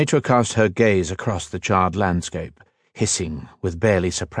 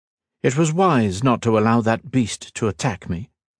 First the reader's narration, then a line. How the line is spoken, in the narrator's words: remarked Illyrian, her tone as casual as if they had met simply for a light-hearted chat